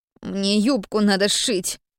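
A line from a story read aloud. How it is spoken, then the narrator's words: Grumbling. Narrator (Russian): проворчал Слава, пряча лицо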